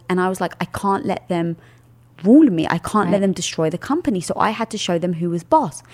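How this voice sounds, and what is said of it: British accent. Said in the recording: “I've got the British accent”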